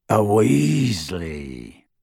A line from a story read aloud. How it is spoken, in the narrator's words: rasped Greyback